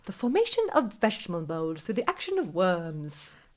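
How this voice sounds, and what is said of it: Attempted English accent. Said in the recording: “I should have tried to do it in an English accent, but it's hard”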